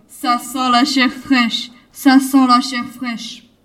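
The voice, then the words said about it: Deep, gruff giant's voice. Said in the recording (French): “avec sa grosse voix”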